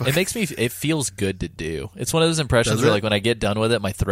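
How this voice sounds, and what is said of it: Usual voice. Nothing is said of it.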